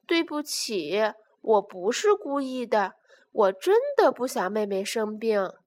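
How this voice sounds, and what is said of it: Sad, quiet voice. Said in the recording (Chinese): “难过的小声说”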